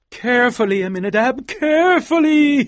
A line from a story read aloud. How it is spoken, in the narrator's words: he cried